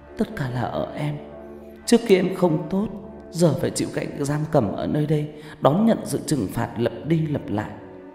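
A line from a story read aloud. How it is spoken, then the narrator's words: Sniffling tearful speech. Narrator (Vietnamese): Cô sụt sùi nói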